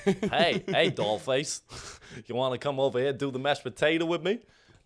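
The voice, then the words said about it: Put-on New York accent. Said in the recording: “why are you speaking with that accent? ... What accent? I'm from New York.”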